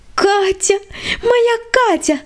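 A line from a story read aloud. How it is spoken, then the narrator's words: Joyful squeal. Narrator (Russian): радостно завизжала Света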